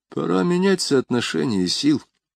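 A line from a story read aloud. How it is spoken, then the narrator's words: Muttered. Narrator (Russian): пробормотал Язон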